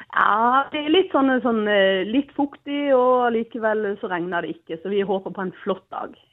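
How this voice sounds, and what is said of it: Mixed Norwegian dialect, mostly southern. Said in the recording (Norwegian): “Hvor er den dialekten fra? ... jeg snakker vel egentlig blanding og litt forskjellig, men mest sørlending ... et sammensurium av dialekter ... Deilig blanding av dialekter”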